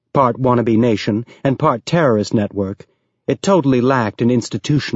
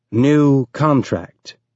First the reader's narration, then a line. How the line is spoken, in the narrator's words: he said slowly